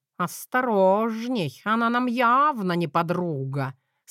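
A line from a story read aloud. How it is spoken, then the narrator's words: Plain. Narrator (Russian): сказал Мэтью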